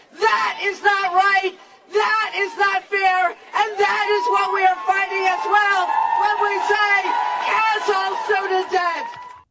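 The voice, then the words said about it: Impassioned shouting speech. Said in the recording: “doing her Howard Dean impression ... woo! Woo! Not very persuasive”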